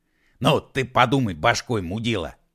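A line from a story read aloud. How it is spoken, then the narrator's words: Angry verbal attack. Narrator (Russian): срывая зло, набросился на него Егор Алексеевич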